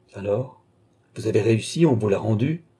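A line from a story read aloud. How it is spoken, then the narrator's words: Exclaimed. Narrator (French): s'écria-t-il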